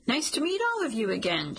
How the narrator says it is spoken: she says brightly

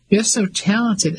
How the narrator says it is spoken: Ellie exclaimed

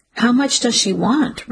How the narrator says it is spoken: Ricky said, his voice more curious than angry

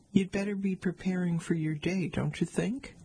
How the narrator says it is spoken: Andrew laughed

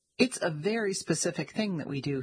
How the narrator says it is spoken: he said

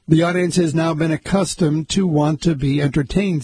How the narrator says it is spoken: says Kaplan

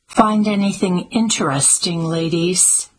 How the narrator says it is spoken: spoke to her in an even tone

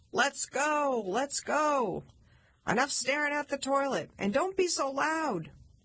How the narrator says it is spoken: Chuck yelled

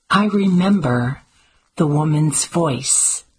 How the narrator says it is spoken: said

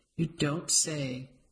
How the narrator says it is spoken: Aunt Edna said dryly

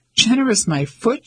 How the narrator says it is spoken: she exclaimed

